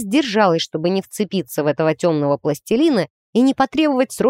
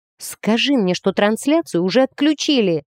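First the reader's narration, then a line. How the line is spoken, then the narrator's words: Pleading. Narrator (Russian): взмолилась я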